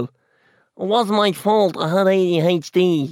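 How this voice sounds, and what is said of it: Nasal imitation of another person's accent. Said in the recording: “his accent's very nasal ... That was a bad one”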